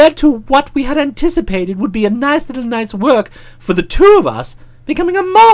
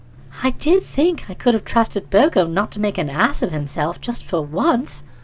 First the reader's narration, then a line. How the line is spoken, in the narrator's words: she murmured with wild regret